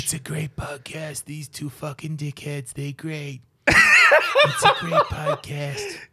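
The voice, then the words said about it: Imitates another person's voice. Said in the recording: “Is that a Trump? ... my Trump impersonation. ... You sound like fucking Al Pacino.”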